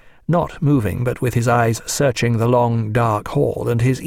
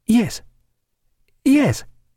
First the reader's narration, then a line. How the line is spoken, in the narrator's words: she answered hesitantly